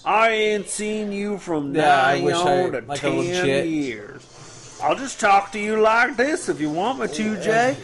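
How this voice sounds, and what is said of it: Exaggerated twangy drawl. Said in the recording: “That like twang.”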